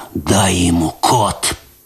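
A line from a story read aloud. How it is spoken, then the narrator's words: Hoarse. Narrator (Russian): прохрипел он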